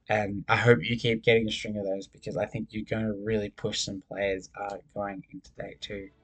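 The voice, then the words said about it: Worn-out, strained voice. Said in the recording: “My voice is pretty much dead now”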